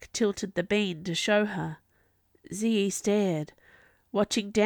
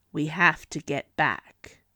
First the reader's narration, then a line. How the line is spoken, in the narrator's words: Jack said grimly